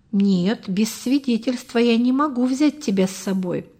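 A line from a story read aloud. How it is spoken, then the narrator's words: Plain. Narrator (Russian): сказал капитан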